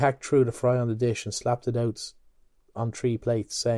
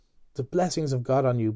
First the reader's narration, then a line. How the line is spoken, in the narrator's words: Buck Mulligan cried